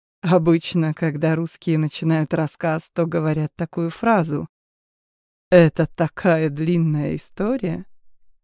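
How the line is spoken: Laughing. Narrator (Russian): он засмеялся

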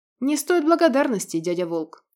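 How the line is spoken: Snorting. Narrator (Russian): хмыкнул Иль

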